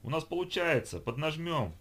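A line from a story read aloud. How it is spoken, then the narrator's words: Exclamation. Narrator (Russian): воскликнул Бекас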